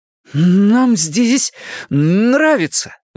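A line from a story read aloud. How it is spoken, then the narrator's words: Sudden defiant exclamation. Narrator (Russian): внезапно и с вызовом воскликнул Билл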